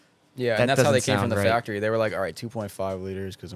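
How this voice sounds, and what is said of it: Usual voice. Nothing is said of it.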